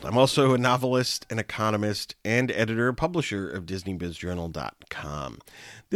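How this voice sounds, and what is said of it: Congested voice from a cold. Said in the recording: “I have a cold.”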